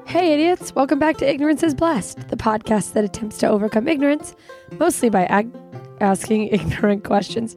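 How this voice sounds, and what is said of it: Raspy, sick-sounding voice. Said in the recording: “I don't always sound like this. I don't sound much better. I have a pretty raspy voice, but I apologize for how I sound ... I have been sick.”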